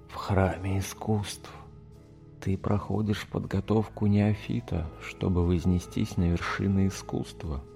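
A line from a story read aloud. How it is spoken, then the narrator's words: Whispered. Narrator (Russian): прошептал незнакомец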